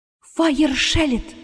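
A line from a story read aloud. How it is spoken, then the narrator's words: Whispered. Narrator (Russian): прошептала Астра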